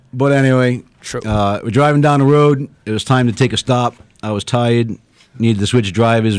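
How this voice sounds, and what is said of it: Rhode Island accent. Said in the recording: “From Rhode Island ... Listen to that fucking accent.”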